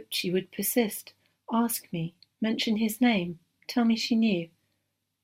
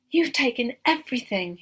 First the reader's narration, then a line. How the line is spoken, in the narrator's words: he shouted